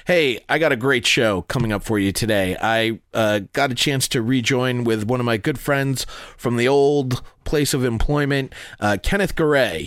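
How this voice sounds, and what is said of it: Congested, stuffy-sounding voice. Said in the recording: “As you can hear, I have a little bit of a cold... just a cold, and you can hear it in my voice.”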